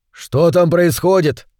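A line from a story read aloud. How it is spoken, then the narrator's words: Shouted over shoulder. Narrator (Russian): крикнул он через плечо Лугати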